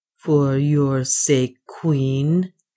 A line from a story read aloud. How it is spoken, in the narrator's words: said bitterly